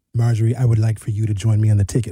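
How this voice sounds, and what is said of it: Imitates another person's voice. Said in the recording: “That was a great impression”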